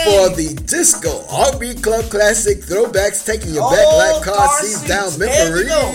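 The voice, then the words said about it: Announcer-style radio voice. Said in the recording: “That's my radio voice. ... I got a radio voice”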